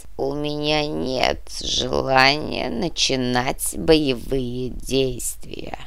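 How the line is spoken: Grumble. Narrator (Russian): снова буркнул князь

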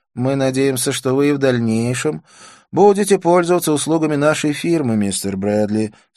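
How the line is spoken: Plain. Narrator (Russian): сказал Уилсон

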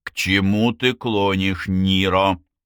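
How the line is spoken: Loud impatient interruption. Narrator (Russian): Лазло потерял терпение и перебил его, громко повторив

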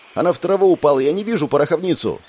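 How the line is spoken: Snapping. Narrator (Russian): огрызнулась волшебница

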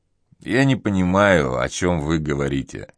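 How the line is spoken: Muffled voice. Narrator (Russian): произнес он глуховатым голосом

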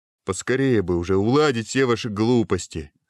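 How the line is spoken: Plain. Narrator (Russian): сказал Гуго

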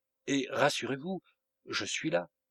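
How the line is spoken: Murmured. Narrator (French): murmura enfin le substitut

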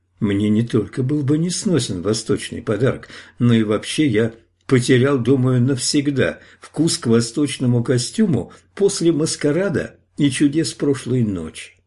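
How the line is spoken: Not quite gentle reply. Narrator (Russian): не совсем мягко и вежливо ответил

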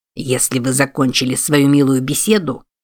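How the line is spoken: Grumbled. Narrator (Russian): проворчал Юб

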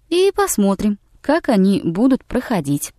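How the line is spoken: Ingratiating, insinuating. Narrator (Russian): вкрадчиво сказал Хэтчену Билл

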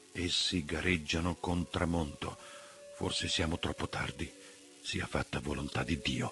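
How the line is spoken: Muffled hollow voice. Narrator (Italian): ha aggiunto con voce sorda

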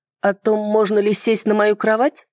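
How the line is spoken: Embarrassed laugh. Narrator (Russian): Эльзин рассмеялась, словно скрывая легкое смущение

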